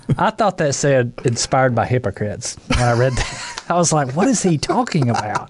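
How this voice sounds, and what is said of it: Southern US accent. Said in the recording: “That's my Southern dialect coming out there.”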